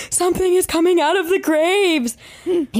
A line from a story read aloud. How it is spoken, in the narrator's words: he comes running back into the truck screaming